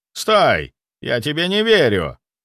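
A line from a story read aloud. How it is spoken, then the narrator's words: Shouted out. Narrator (Russian): выкрикнул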